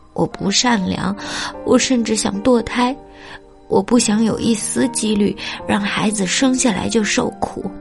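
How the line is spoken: Loud sobbing. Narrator (Chinese): 妈妈放声大哭

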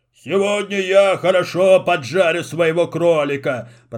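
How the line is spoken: Grumbling. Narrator (Russian): проворчал Карабас

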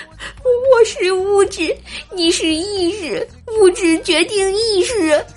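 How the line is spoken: Trembling tearful girl. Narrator (Chinese): 小姑娘用颤抖的哭腔重复着一句话

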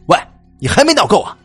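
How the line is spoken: Angry roar. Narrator (Chinese): 黑仔 朝我怒吼了

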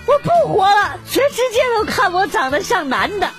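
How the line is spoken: Feigned confused crying. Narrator (Chinese): 故作糊涂哭道

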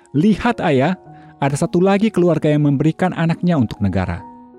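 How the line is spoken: Child shouting. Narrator (Indonesian): Anak itu berteriak

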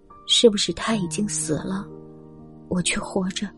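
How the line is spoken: Low, sobbing. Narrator (Chinese): 红子低声哭泣

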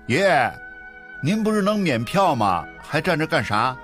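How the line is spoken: Smiling. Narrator (Chinese): 老李面带微笑

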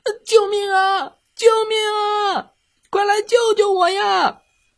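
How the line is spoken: Frightened, struggling, shouting. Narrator (Chinese): 他在水里被吓到了，挣扎着大声喊

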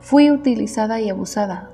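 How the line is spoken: Plain. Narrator (Spanish): dijo Janet

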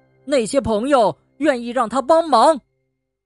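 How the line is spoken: Loud shout. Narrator (Chinese): 松鼠大叫

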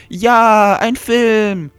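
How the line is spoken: Excited call. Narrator (German): rief Susis Freundin aufgeregt

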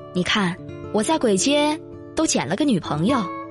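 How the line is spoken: Wry bitter laugh. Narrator (Chinese): 苦笑一声

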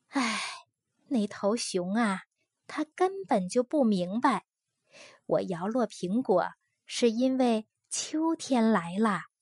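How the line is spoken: Sighing. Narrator (Chinese): 他叹着气

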